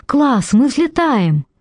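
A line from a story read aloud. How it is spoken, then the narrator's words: Cheerful whooping. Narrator (Russian): Фауста весело заулюлюкал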